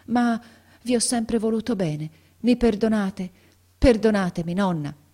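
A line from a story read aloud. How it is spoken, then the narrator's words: Trembling, halting voice. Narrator (Italian): continuò Ferruccio a stento, con la voce tremola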